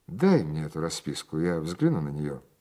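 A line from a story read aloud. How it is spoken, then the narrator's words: Imposing tone. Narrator (Russian): произнес я внушительным тоном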